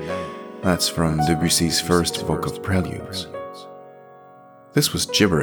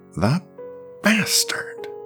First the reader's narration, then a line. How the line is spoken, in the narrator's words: Spider spat through clenched teeth